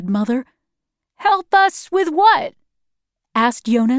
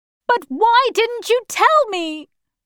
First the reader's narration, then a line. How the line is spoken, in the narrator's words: I shouted